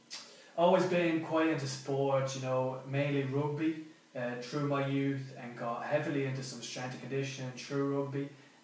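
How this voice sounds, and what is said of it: Rural Irish accent. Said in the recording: “a bit of a country fella, if you couldn't tell from the accent”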